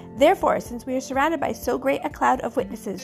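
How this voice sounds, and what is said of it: Strained voice, giving out. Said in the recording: “Don't know where my voice is going”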